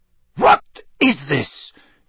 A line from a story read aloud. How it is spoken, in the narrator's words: he cried